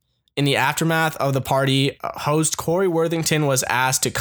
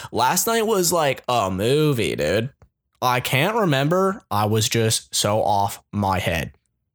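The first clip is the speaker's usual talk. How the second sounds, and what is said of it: Attempted Australian accent, not convincing. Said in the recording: “that's not an Australian accent, but it's the one I'm going to go with”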